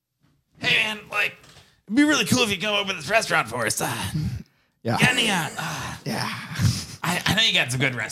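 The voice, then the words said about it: Impression of a friend. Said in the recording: “That was solid impression.”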